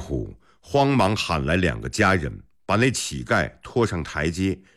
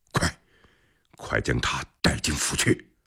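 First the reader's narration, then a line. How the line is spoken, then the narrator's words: Alarmed, low voice. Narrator (Chinese): 李克脸上的表情立时大变，压低声音对昂黑虎说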